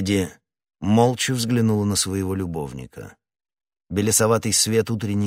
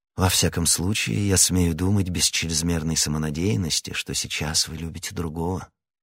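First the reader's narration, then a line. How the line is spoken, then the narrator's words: Tender young man. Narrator (Russian): сказал молодой человек нежным тоном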